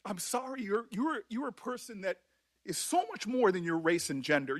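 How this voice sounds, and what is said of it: Emotional, choked-up voice. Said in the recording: “becomes all kind of emotional ... You might want to get a hanky ... this is why I get emotional”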